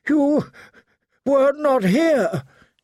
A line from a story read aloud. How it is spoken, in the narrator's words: he gasped